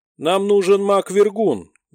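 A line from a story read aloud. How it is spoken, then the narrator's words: Loud. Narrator (Russian): громко сказал Роб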